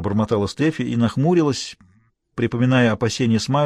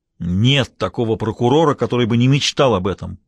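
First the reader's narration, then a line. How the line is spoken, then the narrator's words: Roaring. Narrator (Russian): проревел Мейсон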